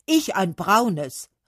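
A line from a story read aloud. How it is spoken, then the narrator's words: Calling out, oak tree. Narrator (German): rief die Eiche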